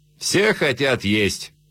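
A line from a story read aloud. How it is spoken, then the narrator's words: Said, then laughing. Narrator (Russian): сказал Дюрок и засмеялся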